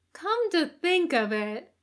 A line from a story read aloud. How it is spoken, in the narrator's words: says brightly, in a tone that promises trouble